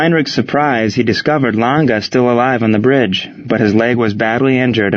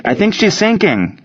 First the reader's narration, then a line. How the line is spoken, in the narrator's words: shouted a sailor on the Pillsbury